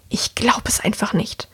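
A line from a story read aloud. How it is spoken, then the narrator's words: Hissed, woman. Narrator (German): die Frau zischen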